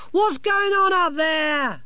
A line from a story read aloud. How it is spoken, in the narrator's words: Sacco yelled up